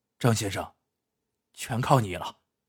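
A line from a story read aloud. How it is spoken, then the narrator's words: Whispering. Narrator (Chinese): 高广进悄声对张秀才说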